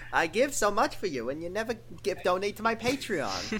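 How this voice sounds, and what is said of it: Jewish mom character voice. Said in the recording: “Jewish mom voice”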